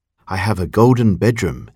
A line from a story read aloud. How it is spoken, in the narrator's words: said softly to himself